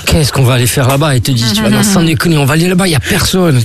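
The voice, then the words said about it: Put-on Corsican accent. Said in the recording (French): “Il a une voix comme ça ? Il a la voix corse ? ... Oui, il a l'accent.”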